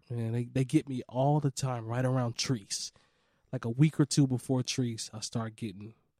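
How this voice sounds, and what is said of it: Slightly hoarse voice. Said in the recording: “Fighting the allergies a little hoarse today”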